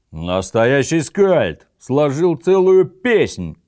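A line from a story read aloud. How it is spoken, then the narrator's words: Group yelling. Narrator (Russian): заорали сидевшие рядом с ним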